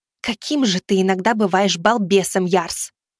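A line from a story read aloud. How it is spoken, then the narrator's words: Witch's hiss. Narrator (Russian): зашипела ведьма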